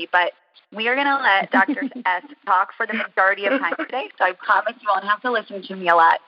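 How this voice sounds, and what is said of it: Slightly scratchy voice. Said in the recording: “my voice is a bit scratchy”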